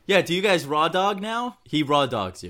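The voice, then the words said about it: Imitates another person's voice. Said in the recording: “That was my Howard Stern impression”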